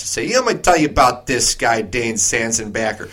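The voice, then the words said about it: Jon Gruden impression, Chicago accent. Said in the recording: “that was John Gruden in Chicago accent”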